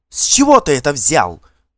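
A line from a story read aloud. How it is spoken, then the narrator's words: Indignant woman's shout. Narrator (Russian): возмущенно крикнула Далла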